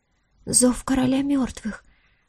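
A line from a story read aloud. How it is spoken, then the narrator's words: Whisper from behind. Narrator (Russian): прошептал кто-то за спиной Диары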